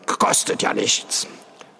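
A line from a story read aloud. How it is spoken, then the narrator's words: Hoarse. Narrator (German): sagte er heiser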